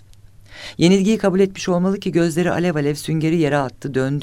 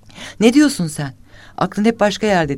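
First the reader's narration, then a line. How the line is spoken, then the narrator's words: Shouted. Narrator (Turkish): diye bağırdı Esma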